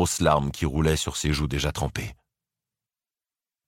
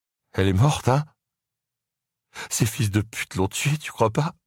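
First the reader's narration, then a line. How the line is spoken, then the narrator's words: Sobbing. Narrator (French): Dante se mit à sangloter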